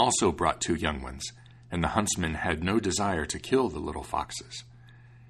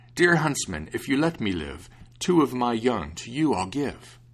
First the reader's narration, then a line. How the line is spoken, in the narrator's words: the fox cried out